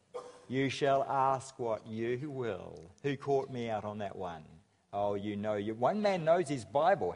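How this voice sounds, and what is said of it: Regional accent from Nelson. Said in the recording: “I come from Nelson, which accounts for my accent.”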